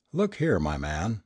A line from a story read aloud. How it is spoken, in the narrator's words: I said